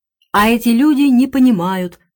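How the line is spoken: Exclamation. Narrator (Russian): воскликнула Клариса

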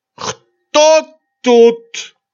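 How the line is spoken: Drunken shout. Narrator (Russian): закричал на меня Гуськов совершенно пьяным голосом

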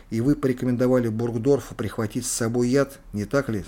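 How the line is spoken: Plain. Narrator (Russian): спросили Кейтеля

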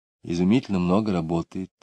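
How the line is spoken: Mother, sighing. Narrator (Russian): сказала мать, вздохнув

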